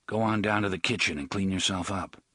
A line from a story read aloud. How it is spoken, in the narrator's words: Balazar said quietly